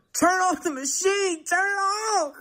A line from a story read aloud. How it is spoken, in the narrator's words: I hollered